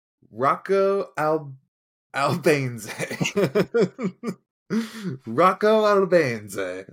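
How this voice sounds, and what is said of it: Exaggerated Italian accent. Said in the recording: “Full accent and everything ... everything's got an Italian flavor”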